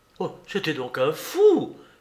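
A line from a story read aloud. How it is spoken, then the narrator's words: Exclaimed. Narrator (French): s'écria Madame Renaud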